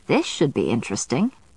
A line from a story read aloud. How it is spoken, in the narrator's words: my grandmother said dryly